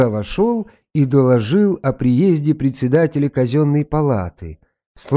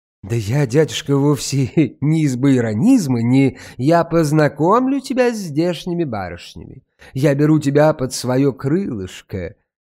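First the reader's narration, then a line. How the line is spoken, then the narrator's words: Interrupting, smug laugh. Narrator (Russian): перебил Матвей Ильич и самодовольно засмеялся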